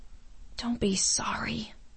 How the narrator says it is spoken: she whispered

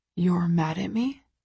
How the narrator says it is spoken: He whispers

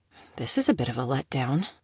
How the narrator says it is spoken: mumbled to herself

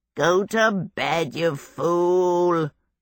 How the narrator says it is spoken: Calcifer said sleepily

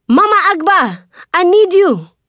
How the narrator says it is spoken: Kani shouts

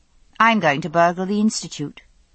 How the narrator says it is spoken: she said calmly

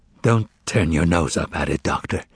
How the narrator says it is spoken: the bartender whispered

